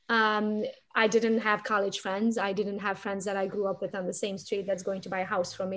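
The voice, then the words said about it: Speaks English with a foreign accent. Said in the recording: “even though I still have an accent, my accent was much, much stronger”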